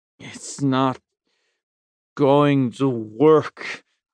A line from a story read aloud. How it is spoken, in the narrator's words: I said slowly